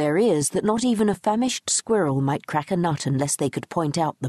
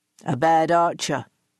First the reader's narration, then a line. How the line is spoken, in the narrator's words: he grunted